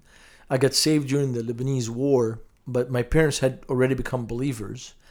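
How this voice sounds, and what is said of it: Lebanese accent. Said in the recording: “detecting by your accent, you're not from Indianapolis originally ... having grown up in Beirut, Lebanon”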